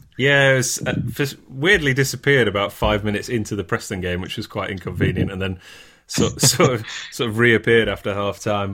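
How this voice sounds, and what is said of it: Hoarse voice. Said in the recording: “Your voice sounds a bit hoarse.”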